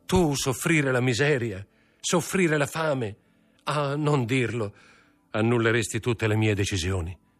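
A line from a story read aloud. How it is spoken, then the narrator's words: Shouted. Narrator (Italian): gridò Mercedes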